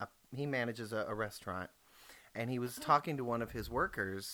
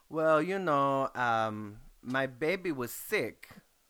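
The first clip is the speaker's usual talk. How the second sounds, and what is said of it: Put-on Mexican accent. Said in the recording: “Thanks for the accent... the accent plays a part in here”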